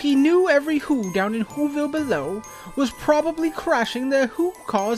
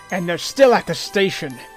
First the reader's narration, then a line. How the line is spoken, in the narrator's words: LT said with a sneer